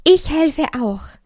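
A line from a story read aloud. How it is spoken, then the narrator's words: Curious call. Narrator (German): rief die Freude, die neugierig zugehört hatte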